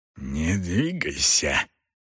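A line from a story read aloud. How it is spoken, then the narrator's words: Hoarse rasp close by. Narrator (Russian): прохрипел голос прямо ему в ухо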